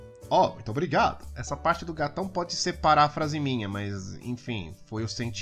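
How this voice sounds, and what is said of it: Usual voice. Nothing is said of it.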